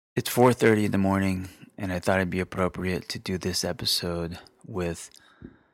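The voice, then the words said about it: Quiet whispering close to microphone. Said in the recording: “I have to be quiet ... that's why I'm whispering. I'm basically eating my microphone so you could hear me.”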